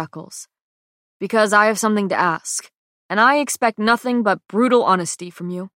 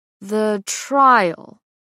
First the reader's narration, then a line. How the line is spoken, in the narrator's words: he says slowly